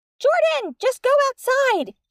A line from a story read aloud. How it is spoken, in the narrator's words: she said squeakily